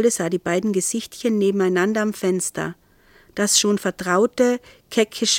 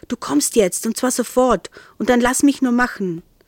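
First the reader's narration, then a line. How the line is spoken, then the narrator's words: Hissing. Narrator (German): er zischte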